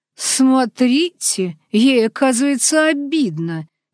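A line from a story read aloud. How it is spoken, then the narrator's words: Creaky, snorting, angry. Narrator (Russian): Скрипучим голосом, пофыркивая, как рассерженная кошка, прервал меня полковник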